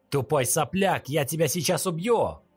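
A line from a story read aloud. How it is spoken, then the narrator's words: Shout. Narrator (Russian): крикнул лысый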